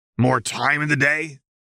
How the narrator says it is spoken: Trezzy said harshly

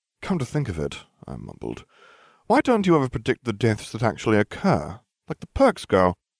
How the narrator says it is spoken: Hermione sighed

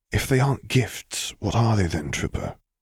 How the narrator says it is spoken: he whispered back, taking care to keep his voice low

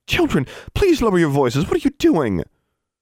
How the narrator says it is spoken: Gwendolyn's cries of

